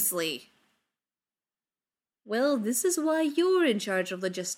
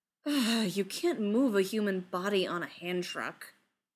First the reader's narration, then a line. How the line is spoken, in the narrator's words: Ryland sighs